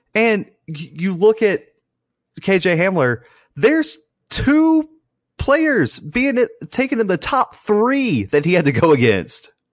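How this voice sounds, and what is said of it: Angry, heated speech. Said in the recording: “You sound so angry right now.”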